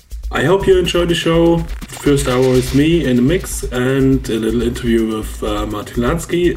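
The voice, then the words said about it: Slightly rough, sick-sounding voice. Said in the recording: “my voice is a little bit screwed, so because I had a little cold the last days”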